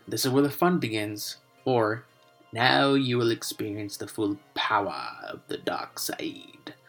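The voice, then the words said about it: Bad Palpatine impression. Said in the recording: “that was a really bad Palpatine impression.”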